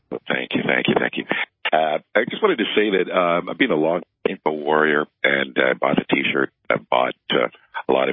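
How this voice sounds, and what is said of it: Rich radio-style voice. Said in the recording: “Great radio voice”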